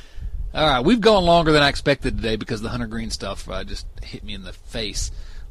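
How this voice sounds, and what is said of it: Sweet Southern accent. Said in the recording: “your sweet Southern accent ... The dulcet tones.”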